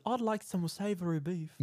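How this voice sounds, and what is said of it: Poor British accent, falsetto. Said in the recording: “I cannot do a British accent. ... I think you're verging towards Australia. ... You just kind of get this weird falsetto thing going.”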